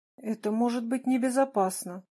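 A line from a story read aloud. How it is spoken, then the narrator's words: Timid protest. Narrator (Russian): робко протестовал Крапивин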